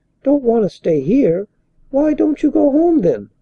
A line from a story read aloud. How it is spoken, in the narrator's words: Ella opened her eyes in wide astonishment as she cried